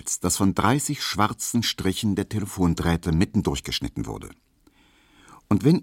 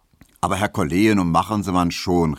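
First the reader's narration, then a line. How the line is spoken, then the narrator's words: Calling out. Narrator (German): rief Herr Tesch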